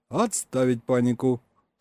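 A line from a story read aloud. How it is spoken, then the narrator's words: Stated sternly. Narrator (Russian): Строго заявил я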